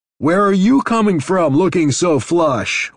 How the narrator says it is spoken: said to the other, talking far more loudly than necessary

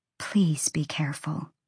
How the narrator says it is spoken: Ember whispered

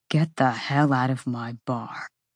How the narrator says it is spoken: Rune snarled softly

